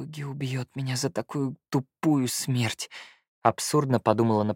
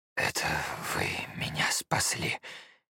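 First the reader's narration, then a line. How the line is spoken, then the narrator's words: Hoarse. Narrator (Russian): хрипло ответил он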